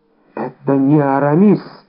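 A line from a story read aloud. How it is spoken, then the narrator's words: Exclaiming. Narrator (Russian): воскликнул он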